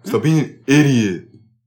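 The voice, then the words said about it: Imitates another person's voice. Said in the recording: “I do his impression pretty good.”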